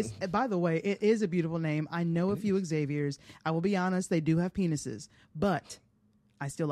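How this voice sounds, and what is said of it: Usual voice. Nothing is said of it.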